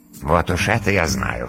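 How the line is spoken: Dragon's smirking grunt. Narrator (Russian): хмыкнул дракон

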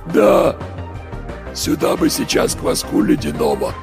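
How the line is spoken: Voiceless wheeze. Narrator (Russian): просипел кто-то без голоса

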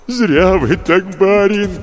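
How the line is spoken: Moaning. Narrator (Russian): простонал Егорыч

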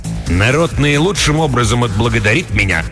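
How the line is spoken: Sharp. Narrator (Russian): резко сказал я

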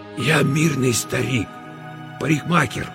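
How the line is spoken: Hoarse strained whisper. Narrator (Russian): хриплым шепотом выдавил Мосес

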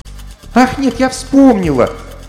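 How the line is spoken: Exclamation. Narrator (Russian): воскликнула Алиса

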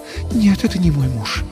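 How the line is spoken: Sigh. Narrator (Russian): вздохнула она

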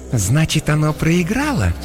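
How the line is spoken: Insinuating question. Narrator (Russian): вкрадчиво спросила Иокаста

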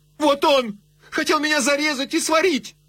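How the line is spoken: Shouted. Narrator (Russian): С робостью открыв перед ним двери горницы, она крикнула

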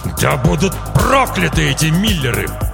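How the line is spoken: Father's growl. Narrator (Russian): прорычал отец девочки

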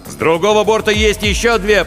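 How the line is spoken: Shouted reply. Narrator (Russian): прокричал в ответ Каламбер

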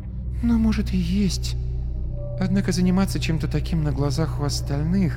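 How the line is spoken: Sighing whisper. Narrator (Russian): Она вздохнула и прошептала

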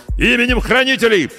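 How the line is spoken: Distant shout. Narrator (Russian): прокричали по ту сторону

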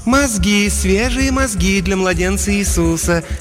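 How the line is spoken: Soft cooing contralto. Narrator (Russian): мягким контральто проворковала ферма

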